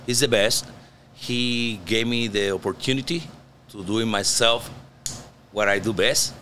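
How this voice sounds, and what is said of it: Strong Puerto Rican accent. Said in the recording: “an American from Louisiana worked with a Puerto Rican ... accent, my accent is so strong”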